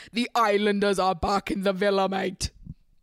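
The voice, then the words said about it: Unconvincing put-on British accent. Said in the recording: “I know that nobody thinks that sounds British.”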